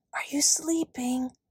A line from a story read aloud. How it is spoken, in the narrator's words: whispered Kate